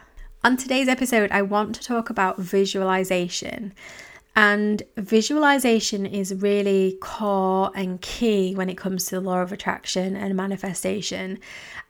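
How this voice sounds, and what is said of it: Husky, slightly breathless voice. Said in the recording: “recovering from a horrific cold slash flu ... my voice is a little bit more husky and I get out of breath quite easily ... a little bit huskier”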